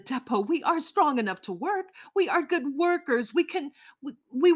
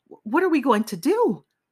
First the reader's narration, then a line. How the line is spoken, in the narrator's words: I said anxiously